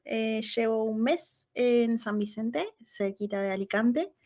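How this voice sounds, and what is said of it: Argentine Spanish accent. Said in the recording (Spanish): “como escucharán mi acento, soy de Argentina.”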